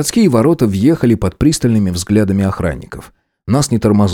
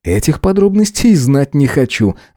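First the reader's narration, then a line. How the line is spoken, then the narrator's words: Laughing. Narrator (Russian): рассмеялся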